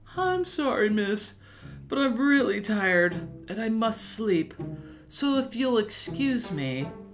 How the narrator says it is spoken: He yawned and said

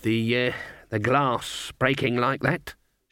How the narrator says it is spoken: she mumbled

